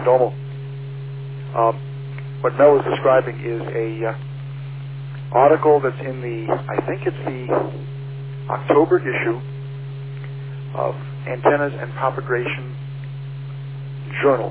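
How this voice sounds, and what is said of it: Mushy, muffled voice over radio. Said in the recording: “my voice is a darn mushy on this handy talkie”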